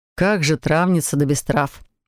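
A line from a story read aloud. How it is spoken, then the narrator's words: Snorting. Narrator (Russian): хмыкнул Себастьян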